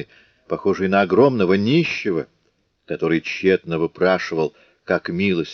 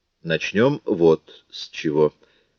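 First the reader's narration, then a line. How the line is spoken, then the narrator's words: Plain. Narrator (Russian): сказал Гаврош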